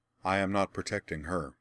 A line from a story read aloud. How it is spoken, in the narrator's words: Laura replied calmly